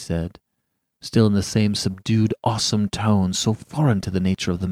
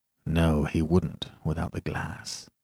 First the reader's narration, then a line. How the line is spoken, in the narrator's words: he murmured